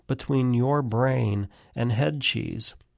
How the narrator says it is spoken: Claire murmurs now

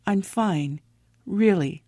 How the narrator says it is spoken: murmuring in an almost unintelligible

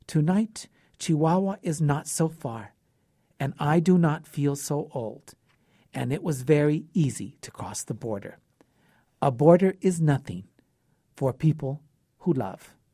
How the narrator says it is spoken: he said quietly

